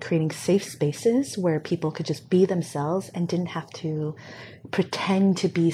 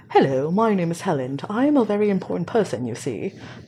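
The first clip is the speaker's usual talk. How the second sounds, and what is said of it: Put-on posh, prestigious-sounding accent. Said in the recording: “now that you speak in that accent, I, I immediately thought that you were much more prestigious”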